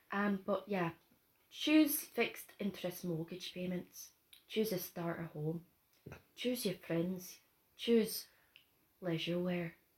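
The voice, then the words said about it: Unpolished put-on Scottish accent. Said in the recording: “I didn't say I'm good at a Scottish accent ... I can't do a Scottish accent.”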